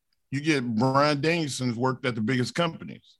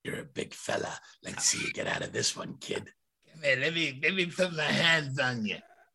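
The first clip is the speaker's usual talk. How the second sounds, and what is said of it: Stu Hart impression. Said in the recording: “my Stu Hart impersonation”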